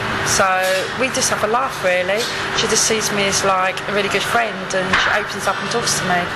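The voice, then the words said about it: Strong Cockney London accent. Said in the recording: “I speak with a very Cockney, Camden accent.”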